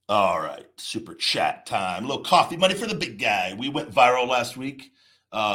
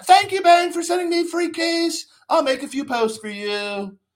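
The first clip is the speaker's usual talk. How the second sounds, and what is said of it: Mock social media influencer voice. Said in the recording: “I do that voice in my head whenever I see one of the influencers”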